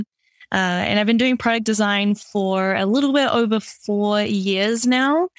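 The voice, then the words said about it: New Zealand accent. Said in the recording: “originally I'm from New Zealand. So that's where this kind of weird accent is from.”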